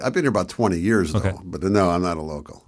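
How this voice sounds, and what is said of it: Non-local accent. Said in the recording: “Going by that accent. ... Going by my accent, I was not born here.”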